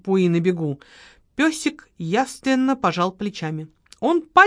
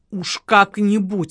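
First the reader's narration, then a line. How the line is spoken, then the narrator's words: Grumbling. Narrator (Russian): ворчал Леня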